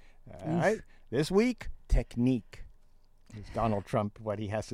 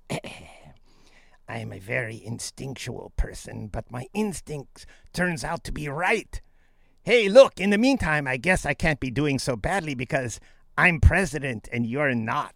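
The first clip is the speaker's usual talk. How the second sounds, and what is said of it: Imitates another person's voice. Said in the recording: “practicing my Donald Trump impersonation ... You sound like Peter Lorre more.”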